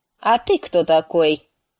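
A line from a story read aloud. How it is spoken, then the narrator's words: Commanding tone. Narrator (Russian): спросил командным тоном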